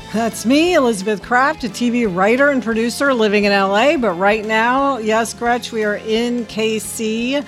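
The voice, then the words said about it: Voice affected by a cold. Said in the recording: “I still am getting over my cold, so excuse my voice.”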